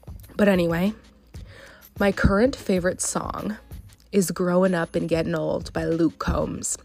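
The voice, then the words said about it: Sounds sick, under the weather. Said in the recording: “I sound sick. ... I'm a little sick. I've been feeling a little under the weather”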